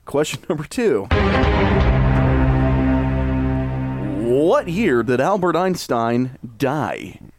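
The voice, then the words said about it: Announcer voice. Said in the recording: “there's my announcer voice.”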